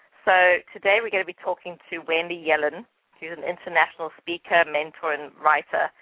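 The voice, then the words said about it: English accent. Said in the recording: “it's probably my English accent”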